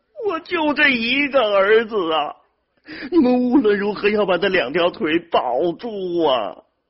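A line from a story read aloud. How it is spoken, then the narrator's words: Desperate sobbing. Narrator (Chinese): 副主任医师李登云已经顾不上体统了，捶胸顿足的哭着说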